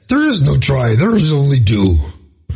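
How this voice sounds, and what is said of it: Poor Yoda character voice imitation. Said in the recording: “terrible Yoda imitation”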